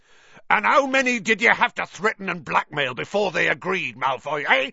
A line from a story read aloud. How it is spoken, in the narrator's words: he roared